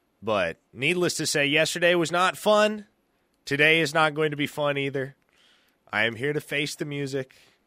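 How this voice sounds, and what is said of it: Weak, strained voice. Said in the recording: “pardon me, my voice is a little weak today ... my voice really is getting strained”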